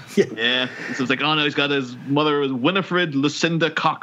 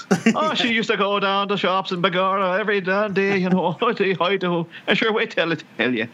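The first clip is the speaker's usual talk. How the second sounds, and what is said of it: Put-on Irish accent imitating mother. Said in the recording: “I'm just doing an impression of my mom ... she sounds pretty. Irish”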